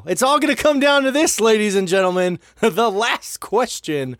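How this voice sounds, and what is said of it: Game show host voice. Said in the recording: “That's the first game show voice that you've actually had perfect.”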